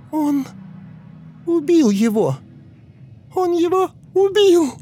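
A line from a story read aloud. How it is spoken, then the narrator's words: Young girl shrieking. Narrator (Russian): визжал голос 10-летней девочки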